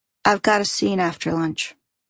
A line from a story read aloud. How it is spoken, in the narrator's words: She answers back flatly